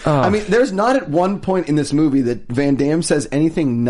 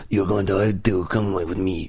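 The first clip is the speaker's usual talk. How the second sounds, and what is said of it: Imitates another person's voice. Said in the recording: “that's an awful Van Damme. ... I thought it was dead on.”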